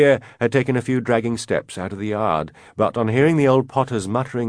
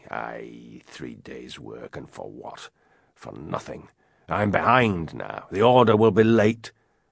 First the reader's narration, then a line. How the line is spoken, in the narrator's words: He continued to mutter crossly